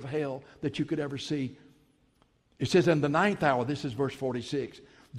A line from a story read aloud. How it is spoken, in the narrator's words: Jesus cried out with a loud voice saying